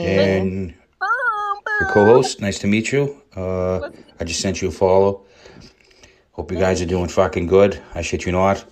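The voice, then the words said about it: Boston accent. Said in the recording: “from Boston, and he knows I love his accent.”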